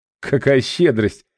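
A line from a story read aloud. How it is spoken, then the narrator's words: Nervous chuckle. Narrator (Russian): нервно хохотнул я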